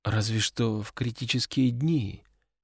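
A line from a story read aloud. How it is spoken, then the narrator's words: Barely audible young woman. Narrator (Russian): еле слышно отозвалась девушка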